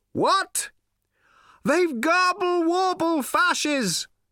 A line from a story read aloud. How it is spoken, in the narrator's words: cried Slarty Bartfast